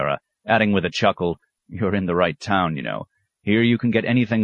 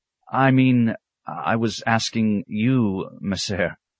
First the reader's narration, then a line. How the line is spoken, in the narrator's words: the monk stammered